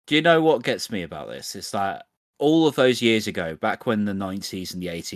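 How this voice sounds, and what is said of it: Usual voice. Nothing is said of it.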